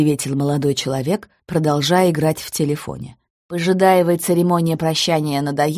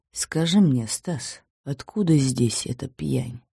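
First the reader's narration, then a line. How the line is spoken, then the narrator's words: Quiet displeased question. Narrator (Russian): Петр Иванович, поморщившись, тихо спросил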